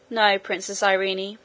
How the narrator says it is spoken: said Curdie

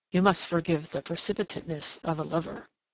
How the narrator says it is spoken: he murmured

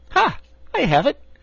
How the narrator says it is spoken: exclaimed

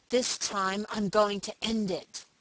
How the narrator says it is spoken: he spoke aloud and through his teeth

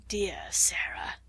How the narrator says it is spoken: murmured Lavinia

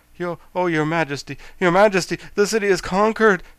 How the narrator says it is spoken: gasped the royal army, who was all out of breath

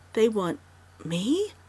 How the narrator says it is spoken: she gasped brokenly, incredulously

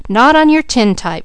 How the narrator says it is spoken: cried Mickey

